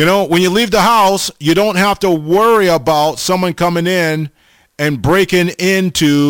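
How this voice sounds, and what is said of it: Usual voice. Nothing is said of it.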